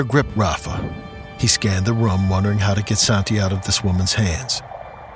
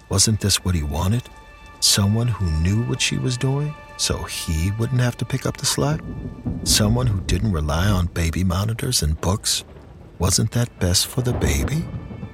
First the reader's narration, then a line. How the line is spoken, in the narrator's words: In a quiet, mocking tone, she asked